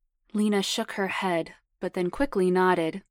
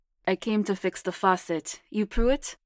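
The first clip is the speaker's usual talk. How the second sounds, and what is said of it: Hard Russian accent. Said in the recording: “a hard Russian accent”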